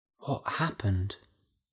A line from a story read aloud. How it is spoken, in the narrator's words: whispered Della